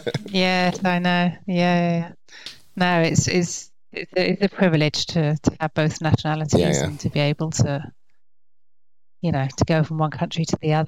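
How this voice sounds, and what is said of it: English accent. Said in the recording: “your accent is definitely not French ... I grew up in England, okay. Hence the accent.”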